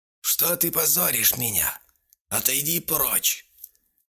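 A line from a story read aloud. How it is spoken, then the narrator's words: Hoarse cry. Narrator (Russian): хрипло вскрикнула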